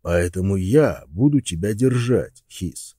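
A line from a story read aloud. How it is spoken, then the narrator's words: Plain. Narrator (Russian): сказал Росс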